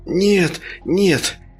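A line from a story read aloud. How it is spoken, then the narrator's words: Sobbing. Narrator (Russian): всхлипнул Денис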